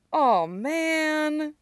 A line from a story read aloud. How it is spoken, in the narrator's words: Stiles whines